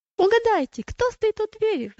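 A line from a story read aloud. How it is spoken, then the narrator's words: Woman exclaiming. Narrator (Russian): воскликнула она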